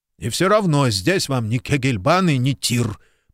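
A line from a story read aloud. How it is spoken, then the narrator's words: Angry grumble. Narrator (Russian): проворчал Куб, все еще сердито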